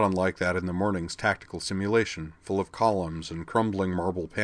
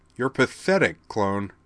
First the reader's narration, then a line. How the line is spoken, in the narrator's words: Kimura said scornfully